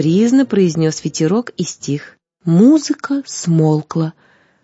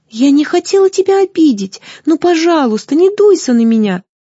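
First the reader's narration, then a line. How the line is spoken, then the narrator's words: Pleading. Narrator (Russian): взмолилась Злата в надежде, что Зефир услышит ее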